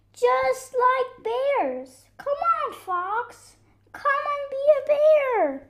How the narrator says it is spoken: they shouted

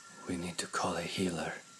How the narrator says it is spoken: Stormdreamer breathed

